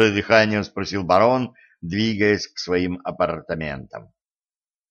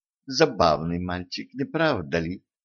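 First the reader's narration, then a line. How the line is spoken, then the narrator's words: Warm, smiling. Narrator (Russian): Ласково улыбнулась барону Катран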